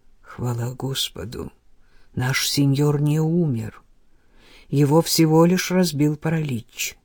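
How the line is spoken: Whispered. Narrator (Russian): прошептал

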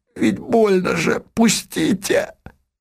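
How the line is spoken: Hoarse, choked young man. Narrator (Russian): юноши ворот, видимо, душил его он хрипло сказал

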